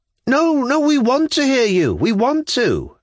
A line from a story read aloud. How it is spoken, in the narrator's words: a few voices from the front row plucked up spirit to exclaim at last